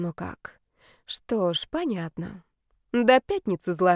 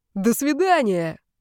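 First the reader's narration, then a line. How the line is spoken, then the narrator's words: Yelling, then guffawing. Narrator (Russian): заорал мне в спину Митяй и почему-то заржал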